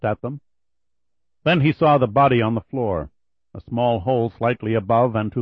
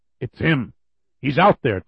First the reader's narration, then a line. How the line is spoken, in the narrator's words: Tucker said